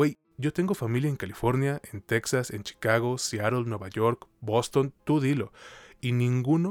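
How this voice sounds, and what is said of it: Usual voice. Nothing is said of it.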